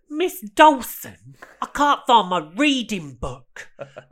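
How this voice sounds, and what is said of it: Put-on Brighton accent, slightly Cockney. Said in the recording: “there's a very distinct Brighton accent... Kind of, it's sort of a bit East End, it's different. It is subtly different... it's not London. It is a bit Cockney.”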